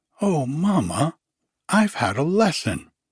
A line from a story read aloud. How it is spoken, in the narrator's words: cried Kitty, bursting into her mother's room like a fresh wind